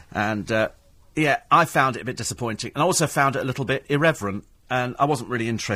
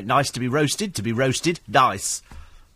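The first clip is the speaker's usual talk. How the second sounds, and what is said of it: Imitates another person's voice. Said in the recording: “very good impression there”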